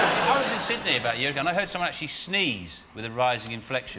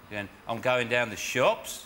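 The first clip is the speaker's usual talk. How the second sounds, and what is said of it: Mock Australian rising inflection. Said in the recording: “Australian accent ... that rising inflection all the time”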